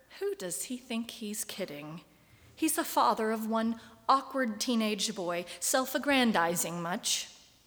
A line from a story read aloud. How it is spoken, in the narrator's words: under their breath mutter